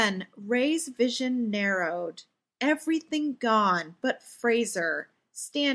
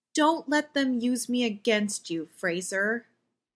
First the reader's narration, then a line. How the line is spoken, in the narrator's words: Ray said evenly, suddenly calm